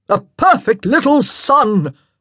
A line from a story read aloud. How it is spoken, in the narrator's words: boomed